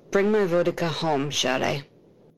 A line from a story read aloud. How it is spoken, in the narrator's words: Cody says tightly